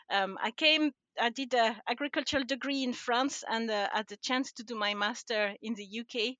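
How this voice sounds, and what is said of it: French accent in English. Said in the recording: “I am not Scottish... I'm originally from France, um, and I don't think I've lost my accent after all these years”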